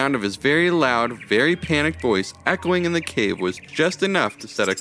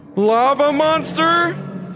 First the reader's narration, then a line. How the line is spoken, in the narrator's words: screamed Jameson